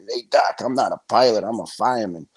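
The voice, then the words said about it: Put-on hard Brooklyn accent. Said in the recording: “in his hard Brooklyn accent”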